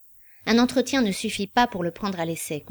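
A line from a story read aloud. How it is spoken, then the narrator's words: Curt conclusion. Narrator (French): conclut-il sèchement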